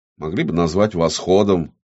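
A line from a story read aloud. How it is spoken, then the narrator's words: Grumbling. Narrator (Russian): проворчал Амон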